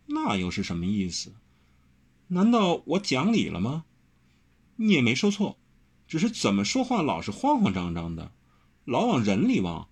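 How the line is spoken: Laughing. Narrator (Chinese): 张轩一笑说

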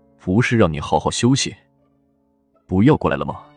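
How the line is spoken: Cold sneer. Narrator (Chinese): 荣美君 嘴角勾起一抹冷笑

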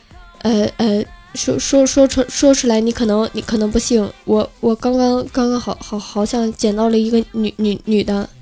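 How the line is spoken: Startled man stuttering. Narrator (Chinese): 那个男的明显吓了一跳，结结巴巴的对电话那头说

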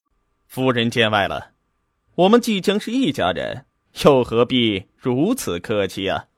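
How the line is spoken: Carefree laugh. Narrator (Chinese): 洒然一笑，道

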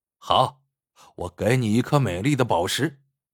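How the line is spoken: Sneering. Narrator (Chinese): 对老乞丐冷笑着说

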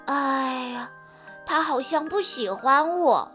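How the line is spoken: Disappointed sigh. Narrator (Chinese): 蓉蓉失望地叹了口气，说

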